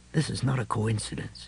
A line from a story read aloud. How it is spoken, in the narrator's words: he said softly